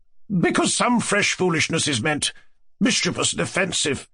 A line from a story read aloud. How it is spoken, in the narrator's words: Lizaveta Prokofievna snapped out